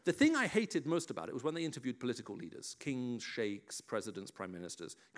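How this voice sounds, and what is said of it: English accent, BBC World Service style. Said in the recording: “where do you get your English accent from? You know, which part of England were you brought up in? Because they struggle to place my accent ... this is the voice of the BBC World Service”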